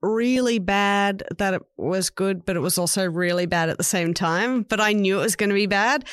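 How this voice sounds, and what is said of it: Usual voice. Nothing is said of it.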